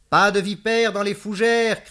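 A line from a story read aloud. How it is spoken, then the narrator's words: Shout. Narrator (French): cria-t-elle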